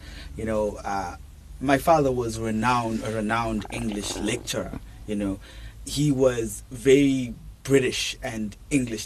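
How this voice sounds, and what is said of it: British-influenced English accent. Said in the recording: “We can hear it from your accent.”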